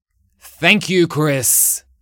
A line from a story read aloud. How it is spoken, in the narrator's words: shouted